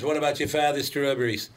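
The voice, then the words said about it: Kennedy-like New England accent. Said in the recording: “borders on a Kennedy accent”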